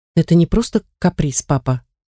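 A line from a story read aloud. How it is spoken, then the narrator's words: Conciliatory. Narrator (Russian): заметил я примирительным тоном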